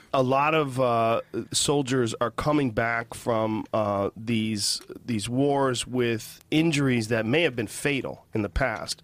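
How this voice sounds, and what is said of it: Slightly congested voice from cold. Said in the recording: “if you hear my voice, I've got a little bit of a cold”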